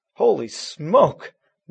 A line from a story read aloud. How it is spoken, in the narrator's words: Matt exclaimed